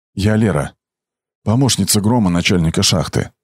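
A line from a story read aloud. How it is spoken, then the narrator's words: Forced calm. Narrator (Russian): сказала она так спокойно, как только могла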